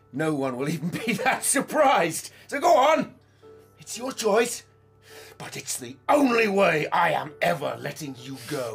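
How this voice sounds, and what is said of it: Angry shouting. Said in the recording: “Stop shouting!”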